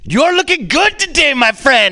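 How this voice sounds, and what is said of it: Put-on Indian accent. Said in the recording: “you have a racist accent that I gave you ... you just have a whole fucking Apu moment”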